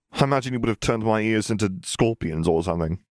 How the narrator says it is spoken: Harry snorted

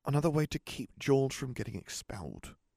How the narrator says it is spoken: replied Ron quietly

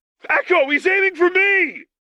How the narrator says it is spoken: Lux screamed her warning

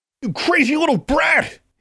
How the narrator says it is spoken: he yelled at her

